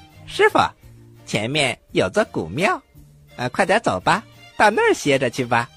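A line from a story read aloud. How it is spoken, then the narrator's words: Smiling. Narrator (Chinese): 孙悟空笑了笑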